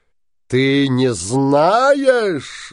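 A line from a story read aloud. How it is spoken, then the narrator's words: Shouted. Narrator (Russian): закричал синяя борода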